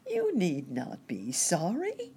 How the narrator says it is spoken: chirped

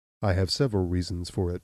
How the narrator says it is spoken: replied Abner

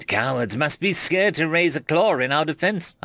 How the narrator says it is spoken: I sneered

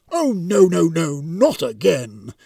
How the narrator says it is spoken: moaned the Reaper

